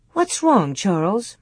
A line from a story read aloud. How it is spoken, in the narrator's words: Ma asked quietly